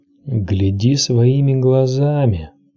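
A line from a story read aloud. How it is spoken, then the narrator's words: Faint whisper. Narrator (Russian): услышала она шепоток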